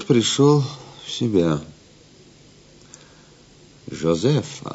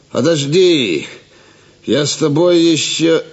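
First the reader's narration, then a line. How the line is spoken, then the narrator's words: Annoyed suspicious shout. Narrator (Russian): Раздосадованный Гивис, подозревая подвох, крикнул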